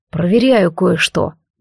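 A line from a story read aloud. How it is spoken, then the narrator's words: Muttered. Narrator (Russian): буркнул Алистар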